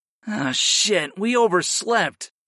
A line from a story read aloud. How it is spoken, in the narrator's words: I groaned